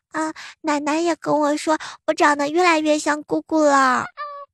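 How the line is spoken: Child, just stopped crying. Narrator (Chinese): 小侄女立马就不哭了，跟着就来了一句

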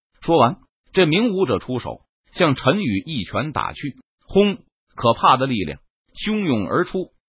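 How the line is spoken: Cold sneer. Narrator (Chinese): 其中一名武者冷笑一声道

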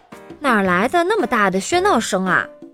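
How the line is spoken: Plain. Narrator (Chinese): 机灵先生问道

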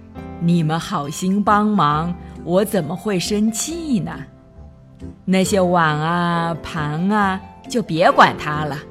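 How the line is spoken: Cheerful, laughing. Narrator (Chinese): 熊婆婆笑呵呵的说

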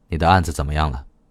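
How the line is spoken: Calm, flat tone. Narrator (Chinese): 郑恒松淡淡的说

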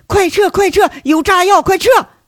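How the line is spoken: Frantic screaming. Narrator (Chinese): 佟思瑶一愣神，跟着就发了疯的大喊

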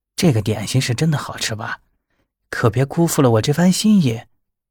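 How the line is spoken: Quiet voice. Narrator (Chinese): 林芷小声道

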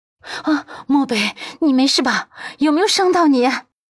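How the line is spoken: Breathless, concerned. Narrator (Chinese): 他顾不得喘息了，上前关心道

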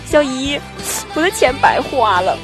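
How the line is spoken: Whining tearful nephew. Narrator (Chinese): 我大外甥 哭兮兮的 说

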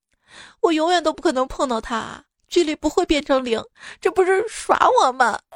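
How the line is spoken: Crying. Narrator (Chinese): 数学家哭着

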